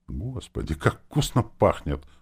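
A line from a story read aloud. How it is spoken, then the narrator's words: Low voice. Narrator (Russian): вполголоса сказал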